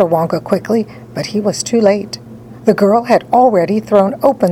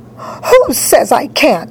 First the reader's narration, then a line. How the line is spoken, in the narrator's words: shouted Veruca